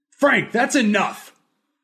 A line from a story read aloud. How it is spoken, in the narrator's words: yelled